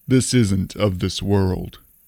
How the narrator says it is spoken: I replied gravely

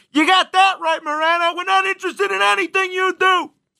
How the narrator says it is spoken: people are screaming at their radios

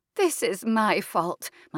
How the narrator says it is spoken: is saying tearfully

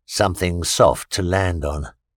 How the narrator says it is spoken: he murmured

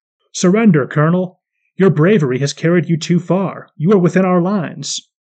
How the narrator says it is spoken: A Russian officer called out in French

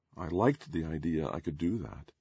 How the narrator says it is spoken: I said more softly

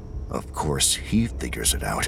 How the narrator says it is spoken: Sagara muttered

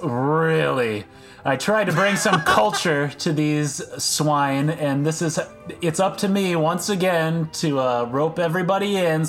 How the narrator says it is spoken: sighs in a world-weary way and says

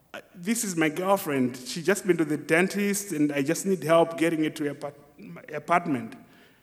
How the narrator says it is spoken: In a very shaky, scared voice, I said to them

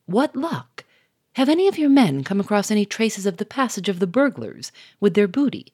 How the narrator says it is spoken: said cheerfully

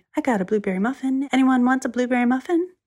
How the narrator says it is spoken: said cheerfully

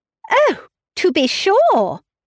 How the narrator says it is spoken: cried Emma

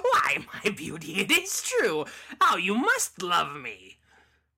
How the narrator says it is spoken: Cackling all the while, the loathsome beggar

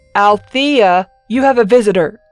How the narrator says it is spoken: he yelled over his shoulder

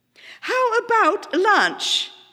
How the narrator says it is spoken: suggested too brightly to take away the sour taste of the driver's expression

